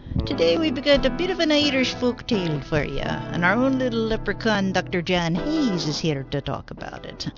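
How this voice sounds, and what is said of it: Corny put-on Irish accent. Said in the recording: “Enough with the corny accent.”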